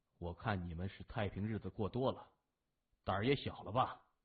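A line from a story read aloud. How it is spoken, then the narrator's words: Cold. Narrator (Chinese): 他冷冷的说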